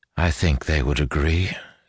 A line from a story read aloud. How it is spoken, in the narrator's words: said Asha quietly, forcing down the twist of fear in her stomach